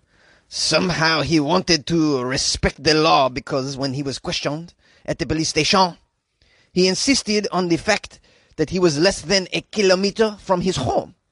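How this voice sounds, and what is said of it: Put-on French accent. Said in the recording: “that was a great French accent for a police chief”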